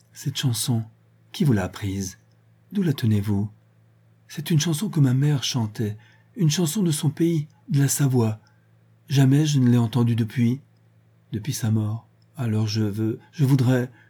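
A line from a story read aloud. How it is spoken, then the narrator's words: Trembling voice. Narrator (French): Véronique prononça, d'une voix frémissante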